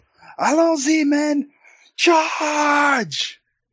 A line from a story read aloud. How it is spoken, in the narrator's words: an uproarious yell from outside the channel